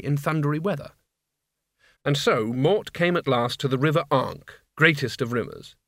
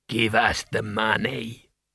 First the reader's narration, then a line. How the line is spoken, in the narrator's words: he rasped